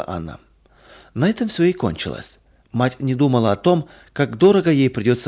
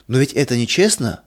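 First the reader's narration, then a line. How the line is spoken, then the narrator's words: Child's exclamation. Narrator (Russian): воскликнул малыш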